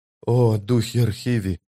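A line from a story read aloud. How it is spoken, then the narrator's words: Woman whispering. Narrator (Russian): прошептала она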